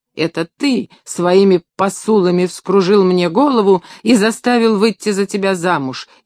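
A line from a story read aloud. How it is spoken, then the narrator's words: Hysterical screaming. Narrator (Russian): истерически кричала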